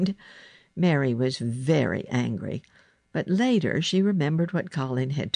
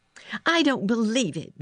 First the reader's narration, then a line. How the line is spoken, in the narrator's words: Mary shouted